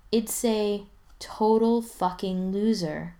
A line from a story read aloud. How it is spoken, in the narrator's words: Ryan says dreamily